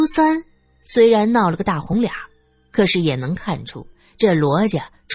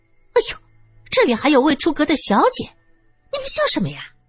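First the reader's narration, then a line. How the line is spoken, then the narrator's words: Hasty, urgent scolding. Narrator (Chinese): 二姨太急忙阻止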